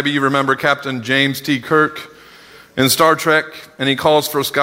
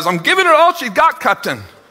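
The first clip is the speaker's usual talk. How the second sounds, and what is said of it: Bad Scotty impression, Scottish accent. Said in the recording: “I know, those were bad.”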